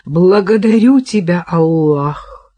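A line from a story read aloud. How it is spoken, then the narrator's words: Sighing. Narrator (Russian): вздохнула Кира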